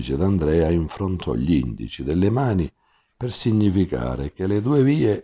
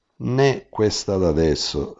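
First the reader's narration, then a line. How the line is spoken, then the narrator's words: Plain. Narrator (Italian): rispose il D'Andrea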